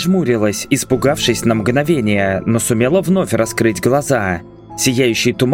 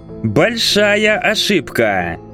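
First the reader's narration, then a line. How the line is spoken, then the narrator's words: Drawling. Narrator (Russian): Протянул он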